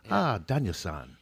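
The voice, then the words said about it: Mr. Miyagi impression. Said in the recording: “It's my Mr. Miyagi impersonation.”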